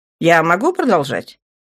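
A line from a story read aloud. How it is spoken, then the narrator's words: Mocking amplified voice. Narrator (Russian): Голос его усиленной аппаратуры прозвучал насмешливо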